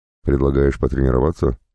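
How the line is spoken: Plain. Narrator (Russian): спросил я

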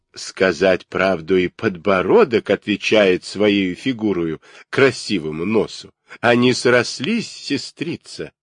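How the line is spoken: Laughing constantly. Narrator (Russian): и та, и другая беспрестанно смеялись

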